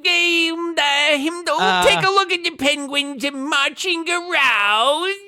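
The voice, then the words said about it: Imitates another person's voice. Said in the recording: “your best impression of Morgan Freeman ... You're doing Gilbert Godfrey as a rabbi.”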